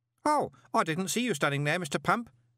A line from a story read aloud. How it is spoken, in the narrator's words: said Stanley cheerfully